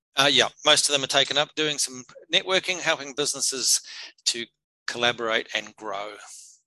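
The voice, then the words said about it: New Zealand accent. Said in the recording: “that accent isn't from England, is it? ... a true-blooded New Zealander, Kiwi”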